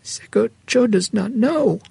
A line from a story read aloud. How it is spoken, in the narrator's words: she responded, her voice very small